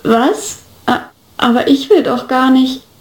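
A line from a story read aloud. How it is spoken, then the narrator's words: Awkward stammer. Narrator (German): stammelte ich etwas unbeholfen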